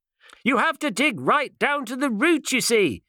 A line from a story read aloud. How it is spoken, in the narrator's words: shouted the doctor to his departing back